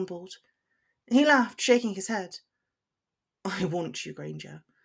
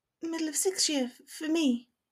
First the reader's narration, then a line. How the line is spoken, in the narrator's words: she whispered back